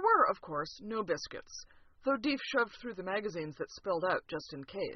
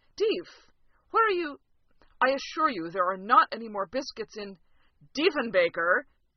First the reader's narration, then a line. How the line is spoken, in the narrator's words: His last shout